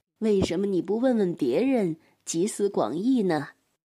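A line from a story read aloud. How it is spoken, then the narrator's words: Sighing king. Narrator (Chinese): 那个国王叹了口气说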